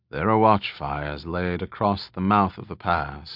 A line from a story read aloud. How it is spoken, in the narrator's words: his father murmured after a moment